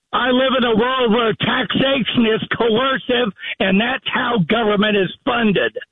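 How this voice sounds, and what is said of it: Loud, yelling delivery. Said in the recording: “What are you yelling at me for? ... Who are you yelling at?”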